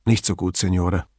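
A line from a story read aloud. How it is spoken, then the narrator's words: Hesitant, quiet. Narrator (German): Domingo zögerte mit der Antwort und sagte schließlich leise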